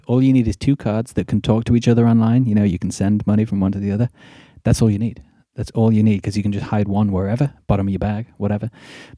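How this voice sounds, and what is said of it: British accent. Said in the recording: “my British accent is kind of almost back now? ... my UK accent is coming.”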